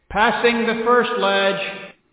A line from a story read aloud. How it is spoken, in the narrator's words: called out